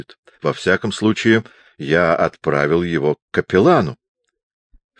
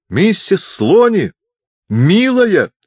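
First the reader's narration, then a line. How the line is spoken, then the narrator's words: Yelling. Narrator (Russian): заорал он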